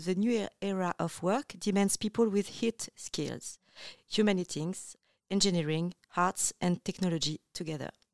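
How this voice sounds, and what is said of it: French speaker's accented English. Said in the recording (French): “ça va être une citation en anglais, excusez mon accent.”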